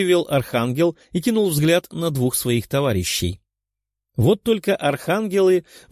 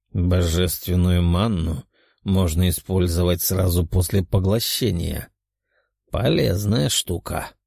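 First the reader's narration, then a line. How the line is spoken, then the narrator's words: Inner mutter, nearly dead. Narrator (Russian): мысленно пробормотал демон, который едва не умер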